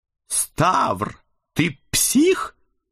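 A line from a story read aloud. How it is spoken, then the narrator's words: Strained smiling hiss. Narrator (Russian): натужно улыбаясь, зашипел на меня Эд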